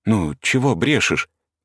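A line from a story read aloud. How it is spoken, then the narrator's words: Displeased whisper. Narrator (Russian): сказала Парашка недовольным шепотом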